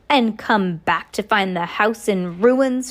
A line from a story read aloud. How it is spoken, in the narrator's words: snarled